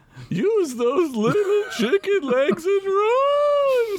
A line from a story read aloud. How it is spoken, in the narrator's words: screamed Tombstool to the vampire